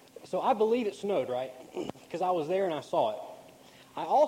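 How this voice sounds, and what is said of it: Usual voice. Nothing is said of it.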